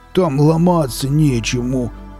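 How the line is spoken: Groaned. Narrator (Russian): простонал ей Велес

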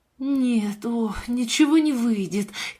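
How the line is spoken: Groaning. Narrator (Russian): Кейси застонала

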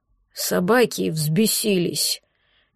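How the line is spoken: Displeased deep voice overhead. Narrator (Russian): Недовольно пробасил кто-то у меня над головой

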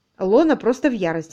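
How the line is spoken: Plain. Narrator (Russian): сказал он

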